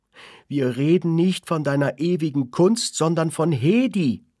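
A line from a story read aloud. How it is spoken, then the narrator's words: Mother shouting, blinded by tears. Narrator (German): schrie die Mutter tränenblind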